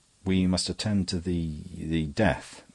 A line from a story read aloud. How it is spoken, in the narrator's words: his voice escaped from articulation